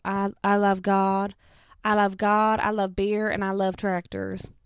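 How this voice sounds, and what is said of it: Put-on Southern US accent. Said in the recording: “a very good impression of a Southern Monet person”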